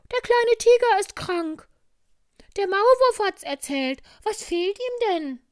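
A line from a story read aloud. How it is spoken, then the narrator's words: Hare calling out. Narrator (German): Der Hase mit den schnellen Schuhen kam und rief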